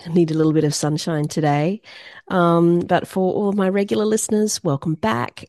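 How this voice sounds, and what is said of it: Slightly congested voice, sounds sick. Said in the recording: “excuse my voice. ... I've got a slight cold at the moment.”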